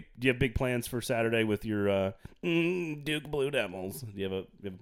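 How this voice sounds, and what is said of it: Nasal, moaning impression of a coach. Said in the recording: “my Coach K impersonation ... All those impressions are terrible ... Does he moan like that? ... he's got kind of a nasally, devilly ... he does have a nasally voice”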